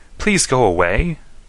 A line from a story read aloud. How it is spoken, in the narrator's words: begged one